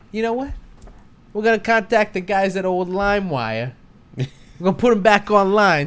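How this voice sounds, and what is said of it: Put-on Russian accent. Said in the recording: “It's a really good Russian accent”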